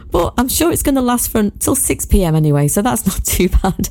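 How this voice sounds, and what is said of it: Husky, nearly lost voice. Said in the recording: “my voice is a little bit husky, because I was singing so much ... my voice is now more or less gone”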